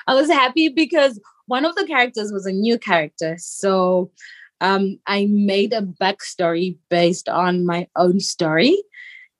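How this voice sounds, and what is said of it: Speaks with a noticeable accent. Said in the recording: “I love your accent”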